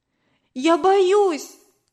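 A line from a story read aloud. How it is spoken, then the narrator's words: Shouted. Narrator (Russian): крикнула я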